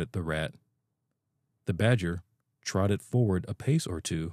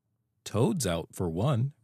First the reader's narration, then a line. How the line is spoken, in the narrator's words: replied the otter